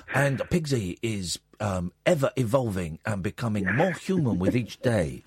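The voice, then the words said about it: Stereotyped put-on voice. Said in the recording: “doing the voice of... It was a Western guy doing a slightly racist voice”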